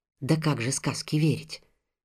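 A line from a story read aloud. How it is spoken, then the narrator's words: Low voice, sleepy yawning. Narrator (Russian): сказала жена вполголоса, зевая ото сна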